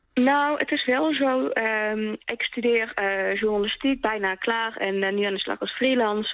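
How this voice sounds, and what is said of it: Regional Dutch accent, non-Randstad. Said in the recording (Dutch): “dat accent is wel lastig... en je bent onverstaanbaar... ik vind mijn accent eigenlijk nog best wel leuk”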